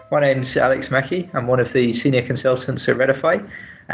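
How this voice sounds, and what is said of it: Noticeable accent, unlike usual host. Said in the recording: “It's not your normal host, Richard Banks, as you may have noticed by my accent.”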